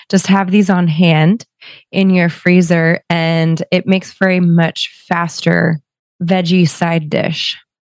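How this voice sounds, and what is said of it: Strained voice, speaking slowly. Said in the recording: “I apologize for my voice. I'm going slow because it's hard for me to get it out.”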